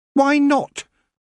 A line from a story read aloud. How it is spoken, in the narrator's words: said Tiffany sharply